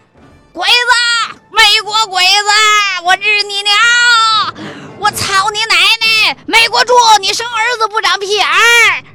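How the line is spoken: Crude jeering curses. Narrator (Chinese): 用他们能想到的最肮脏的言语骂着

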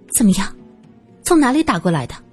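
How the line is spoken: Hurried question. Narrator (Chinese): 萧琴急忙问着

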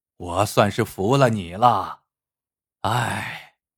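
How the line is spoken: Resigned sigh. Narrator (Chinese): 麻绳铺掌柜冲着肖永春叹了一口气

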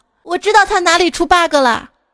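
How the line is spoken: Excited shout. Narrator (Chinese): 工程师兴奋地喊道

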